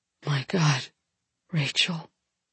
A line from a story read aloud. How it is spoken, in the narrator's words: he whispers